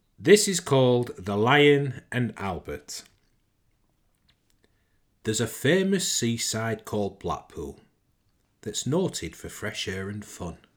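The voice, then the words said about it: Lancashire accent reciting a poem. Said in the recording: “As I'm from Lancashire, born and bred, I reckon I can pull this accent off and interpret the dialect correctly ... my Lancashire twang”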